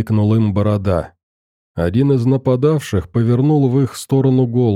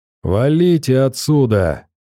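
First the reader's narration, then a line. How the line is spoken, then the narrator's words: Mocking shout. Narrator (Russian): глумливым голосом крикнул он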